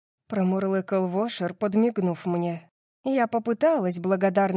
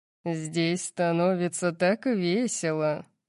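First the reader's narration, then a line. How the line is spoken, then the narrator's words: Purring. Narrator (Russian): промурлыкал Макс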